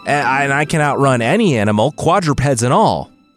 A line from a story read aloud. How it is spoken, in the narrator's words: William shouted, breathless at the end of his long resume